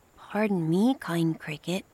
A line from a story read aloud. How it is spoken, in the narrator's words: Pinocchio said